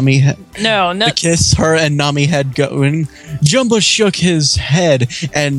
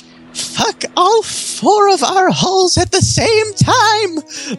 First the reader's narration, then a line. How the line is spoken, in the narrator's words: Lilo squealed in delight